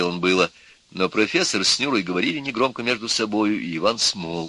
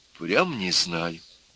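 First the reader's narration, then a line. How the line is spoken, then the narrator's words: Quiet and sad. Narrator (Russian): тихо и грустно опять сказала Нюра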